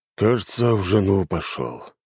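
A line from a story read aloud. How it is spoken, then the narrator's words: Heavy sigh. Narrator (Russian): тяжело вздохнул мужчина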